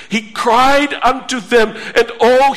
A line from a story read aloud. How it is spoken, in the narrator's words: he cried with pain